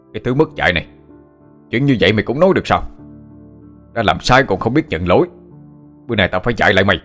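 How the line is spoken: Shout. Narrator (Vietnamese): Ông ta quát lên

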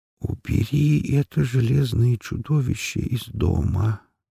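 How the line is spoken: Barely audible, stiff lips. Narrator (Russian): еле слышно произнес Рутлен цементными губами

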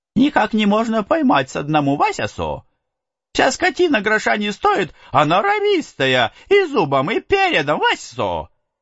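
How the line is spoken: Cheerful smiling reply. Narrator (Russian): отвечал Юхванка, улыбаясь очень весело

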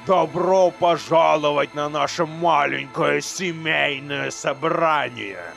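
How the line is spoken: Booming. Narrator (Russian): прогремел Баралет

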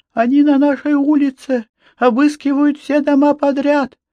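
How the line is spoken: Sobbing. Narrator (Russian): всхлипнула она

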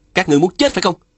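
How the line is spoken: Frightened then angry shout. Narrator (Vietnamese): Phùng Bất Thôi bất giác khiếp sợ, nhưng lập tức giận dữ hét lên

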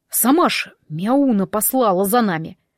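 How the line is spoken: Apologetic mutter. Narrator (Russian): пробормотал Иван, будто извиняясь за вспышку гнева

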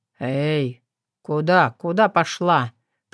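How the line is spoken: Sleepy hoarse rasp. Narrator (Russian): прохрипел сонно Котов

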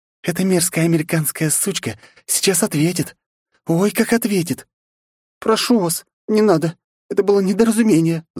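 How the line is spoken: Pleading. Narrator (Russian): взмолилась Оливия

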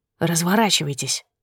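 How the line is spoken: Loud whispered order. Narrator (Russian): громким шепотом приказал он

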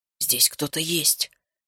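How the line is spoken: Whisper. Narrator (Russian): прошептал наш отважный Феликс

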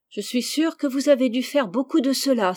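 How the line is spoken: Exclaimed. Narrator (French): s'écria Rose

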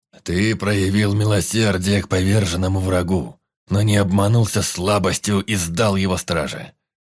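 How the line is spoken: Deep bass voice. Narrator (Russian): пробасил Яунгол

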